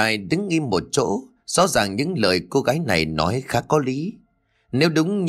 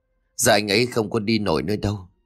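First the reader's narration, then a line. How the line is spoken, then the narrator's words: Weary dejected sigh. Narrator (Vietnamese): Ly thở dài rồi nói bằng một giọng chán nản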